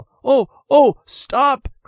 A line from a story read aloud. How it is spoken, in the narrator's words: cried, running after the truck